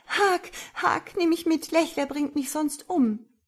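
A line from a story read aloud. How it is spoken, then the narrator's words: Pleading. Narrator (German): Meine Frau flehte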